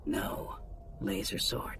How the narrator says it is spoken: Rug said, lowering her voice even further as the guards approached

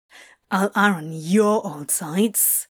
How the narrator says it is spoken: Crowley grumbled

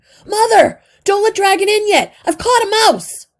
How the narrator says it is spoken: A voice shouted

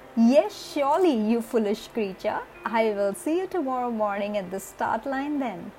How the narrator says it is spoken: the horse continued laughing and said

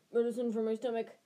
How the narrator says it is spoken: Ron grunted without further ado

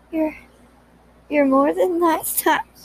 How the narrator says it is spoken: he gasped

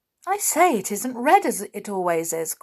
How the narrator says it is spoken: cried

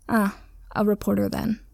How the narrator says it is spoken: Killua sighed

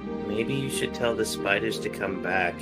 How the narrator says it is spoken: quietly lean over to Bob and go

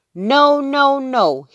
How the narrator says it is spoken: shouted

